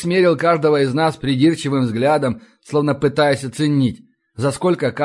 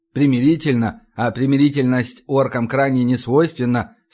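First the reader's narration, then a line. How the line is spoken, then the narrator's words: Plain. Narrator (Russian): сказал вышибала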